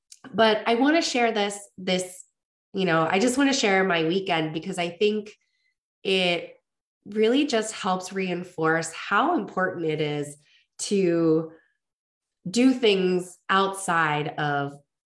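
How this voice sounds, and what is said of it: Hoarse, congested voice. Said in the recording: “I have a little bit of a cold and I lost my voice”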